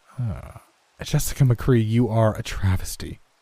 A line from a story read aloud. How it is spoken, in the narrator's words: she said with such imperiousness